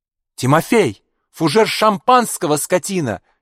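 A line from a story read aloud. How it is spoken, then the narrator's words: Sudden shout from below. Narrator (Russian): неожиданно закричал снизу поручик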